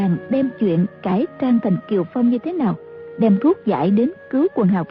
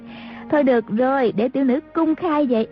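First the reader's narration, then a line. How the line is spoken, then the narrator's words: Fearless, giggling. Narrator (Vietnamese): A Châu không sợ hãi gì, cười lên khanh khách nói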